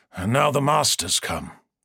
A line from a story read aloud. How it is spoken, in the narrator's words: Omegon said grimly